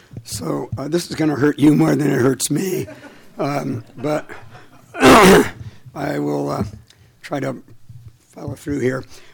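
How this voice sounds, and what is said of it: Hoarse, strained voice. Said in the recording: “I'm in week number five of laryngitis.”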